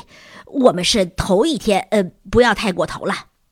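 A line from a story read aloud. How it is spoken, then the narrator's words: Heavy panting. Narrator (Chinese): 维茨尔喘着粗气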